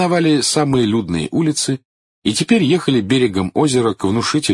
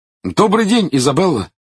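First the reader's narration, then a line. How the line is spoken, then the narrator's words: Cheerful. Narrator (Russian): весело сказал он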